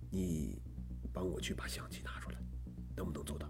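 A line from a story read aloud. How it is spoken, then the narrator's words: Low hushed voice. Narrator (Chinese): 罗非压低了声音说道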